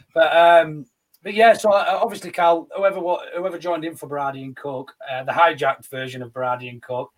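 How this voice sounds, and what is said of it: Hoarse, strained voice. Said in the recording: “lost my voice as well from singing on Sunday. I don't know if you can tell, my voice is proper horse as fuck.”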